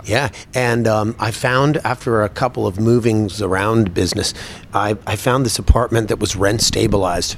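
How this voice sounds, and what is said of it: New York accent. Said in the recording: “You have a New York accent with the sounds of it”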